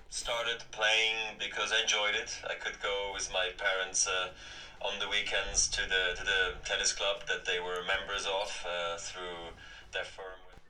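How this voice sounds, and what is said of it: Foreign accent with American twang. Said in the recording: “that accent ... I wouldn't have placed that accent ... Obviously a massive American twang there”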